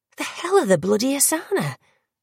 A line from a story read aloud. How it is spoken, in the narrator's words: Gillian whispered